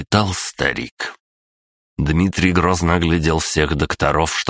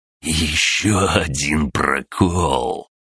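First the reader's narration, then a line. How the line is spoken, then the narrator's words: Wry hiss. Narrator (Russian): прошипел Дмитрий, криво усмехнувшись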